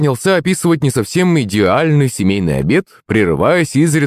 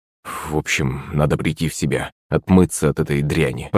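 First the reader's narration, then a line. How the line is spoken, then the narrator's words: Muttering. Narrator (Russian): пробормотал батя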